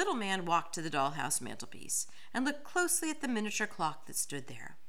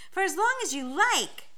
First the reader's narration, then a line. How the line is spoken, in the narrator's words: said Ellie happily